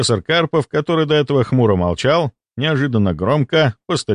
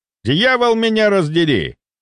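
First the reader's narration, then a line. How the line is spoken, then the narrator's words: Thundering. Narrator (Russian): прогремел он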